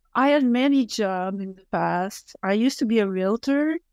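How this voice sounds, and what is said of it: French-Canadian accent, slower English. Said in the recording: “I'm French-Canadian from Quebec City ... I have a French accent and I don't speak as fast as I would like, because English is not my main language”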